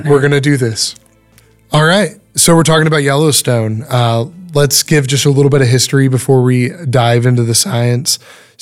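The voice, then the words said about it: Rough, affected voice. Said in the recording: “apologize for my voice a little bit... it is the worst allergy season in Texas right now”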